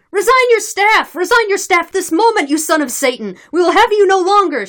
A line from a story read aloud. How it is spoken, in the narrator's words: shouted some of the Cossacks in the crowd